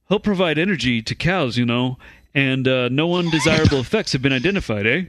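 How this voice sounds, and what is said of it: Poor put-on Canadian accent. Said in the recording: “What kind of accent was that? ... that was not a good Canadian accent”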